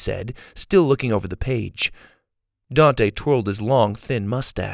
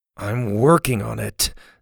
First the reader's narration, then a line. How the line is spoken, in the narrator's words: Susie grumbled, not looking up from the page